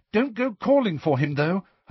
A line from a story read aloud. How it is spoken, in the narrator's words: Hermione said urgently